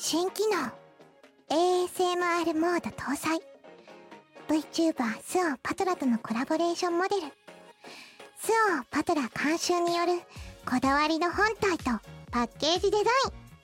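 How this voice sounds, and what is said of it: Soft ASMR-style whisper. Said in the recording (Japanese): “ASMR っぽくやってもらう方がいいんじゃないです ... ささやき”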